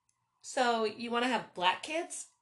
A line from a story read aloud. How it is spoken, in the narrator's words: piped in